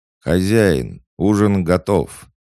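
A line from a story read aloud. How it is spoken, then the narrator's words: Solemn announcement. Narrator (Russian): торжественно возвестил Нортидж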